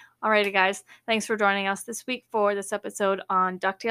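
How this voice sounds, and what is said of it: Usual voice. Nothing is said of it.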